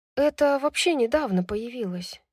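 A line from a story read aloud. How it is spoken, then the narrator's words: Sighing woman. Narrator (Russian): вздохнула она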